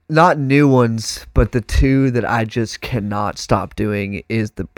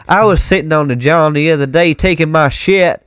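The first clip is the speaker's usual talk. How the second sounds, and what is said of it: Put-on Southern US accent. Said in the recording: “the super Southern”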